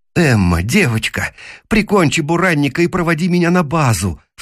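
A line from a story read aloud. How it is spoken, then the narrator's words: Pleading. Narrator (Russian): взмолился я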